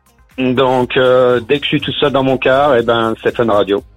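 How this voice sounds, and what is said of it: Slight American accent in French. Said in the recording (French): “T'as un peu l'accent, c'est classe.”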